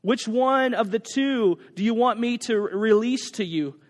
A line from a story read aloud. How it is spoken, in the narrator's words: asked the governor